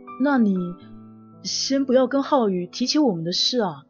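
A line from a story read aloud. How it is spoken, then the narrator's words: Low serious voice. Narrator (Chinese): 杏红停止了笑容，沉声的说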